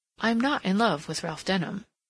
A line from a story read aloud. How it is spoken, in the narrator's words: she said